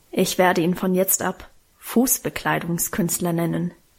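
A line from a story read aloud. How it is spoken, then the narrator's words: Grumbling mutter. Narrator (German): brummte sie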